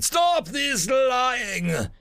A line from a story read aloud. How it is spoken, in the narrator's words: I screamed with as much terror as I could put into their language